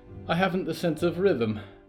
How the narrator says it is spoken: Polly sighed

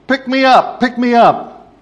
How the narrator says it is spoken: The little kid kept on yelling out

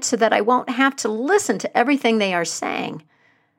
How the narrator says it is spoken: cried

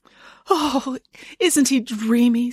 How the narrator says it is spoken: sighed Nanny Ann

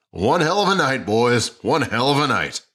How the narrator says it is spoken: Richardson's voice boomed over the crowd

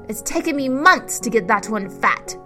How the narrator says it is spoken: her stepmother yelled from the top of the stairs

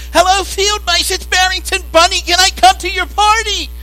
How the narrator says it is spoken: the wind was howling so loud, and Barrington was sobbing so hard

